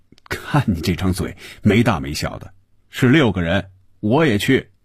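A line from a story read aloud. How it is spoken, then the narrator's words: Laughing. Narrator (Chinese): 红军笑着说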